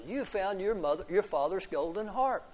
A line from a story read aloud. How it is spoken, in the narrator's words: said happily